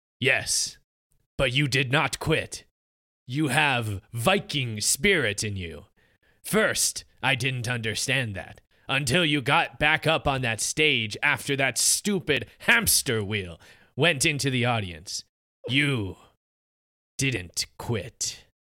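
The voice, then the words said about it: Put-on video game character voice. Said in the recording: “I love that Pierce Brosnan accent. ... That's actually my Torbjorn voice from Overwatch. he's the engineer.”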